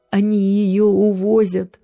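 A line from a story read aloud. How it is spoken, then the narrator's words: Sobbing. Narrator (Russian): всхлипнула она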